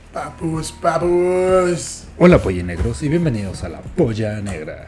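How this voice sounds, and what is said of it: Radio announcer voice. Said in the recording (Spanish): “estás poniendo tu voz de locutor, güey. Estás poniendo tu voz de locutor.”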